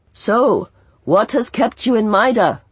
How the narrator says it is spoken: Fat Shargo asked, raising his voice above the jingle of tambourines

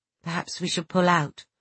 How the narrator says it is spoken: I said quietly

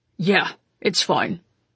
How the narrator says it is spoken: Konstantin replied curtly

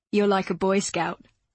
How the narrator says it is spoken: he said, laughing

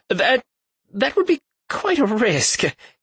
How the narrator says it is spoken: he stammered

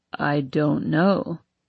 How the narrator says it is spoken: he says slowly

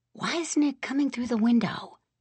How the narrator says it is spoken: I whispered

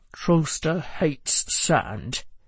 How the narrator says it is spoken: Joe muttered

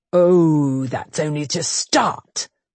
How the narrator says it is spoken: the Duke growled low

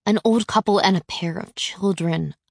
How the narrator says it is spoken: I murmur with a sneer

